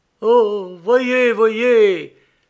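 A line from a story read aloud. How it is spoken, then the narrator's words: Sudden exclamation. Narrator (French): s'écria Hopkins brusquement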